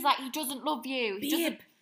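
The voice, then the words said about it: Attempted Irish accent imitation. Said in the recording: “That was the worst Irish accent. ... I actually love the Irish accent. ... Good effort. 10 out of 10 for effort.”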